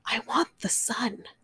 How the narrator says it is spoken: Then she whispered

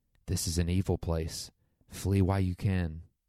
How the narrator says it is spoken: whispered

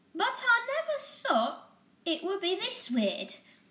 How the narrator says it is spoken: she exclaimed

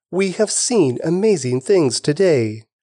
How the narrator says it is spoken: Everyone was gripped with great wonder and awe, and they praised God, exclaiming

